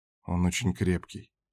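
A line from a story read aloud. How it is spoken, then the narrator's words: Quiet reply. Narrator (Russian): тихо отвечал шеф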